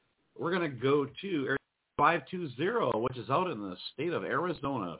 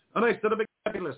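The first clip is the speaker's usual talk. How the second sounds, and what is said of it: Fake accent. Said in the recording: “I don't know why I made a fake accent.”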